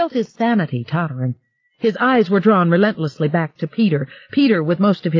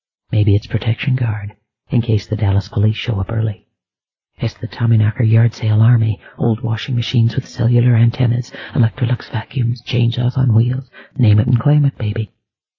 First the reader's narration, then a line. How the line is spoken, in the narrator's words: A voice whispered